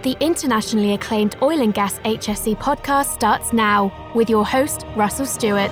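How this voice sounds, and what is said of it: British accent. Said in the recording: “that lovely British accent”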